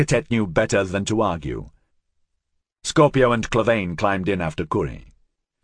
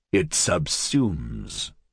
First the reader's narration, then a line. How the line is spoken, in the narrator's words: Clavain said quietly, as if wary